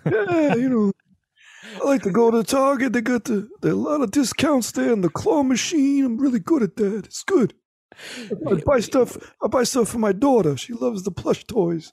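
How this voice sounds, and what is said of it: Impression of another person's voice. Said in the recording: “What a great impression as well. Can we hear another?”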